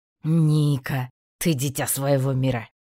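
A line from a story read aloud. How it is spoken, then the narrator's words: Wry snort. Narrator (Russian): хмыкнул он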